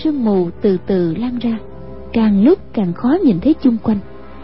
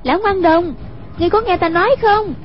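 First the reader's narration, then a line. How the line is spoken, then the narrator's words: Calling out. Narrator (Vietnamese): Hoàng Dung kêu lên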